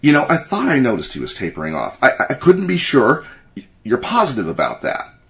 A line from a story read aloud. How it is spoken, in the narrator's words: Harry said excitedly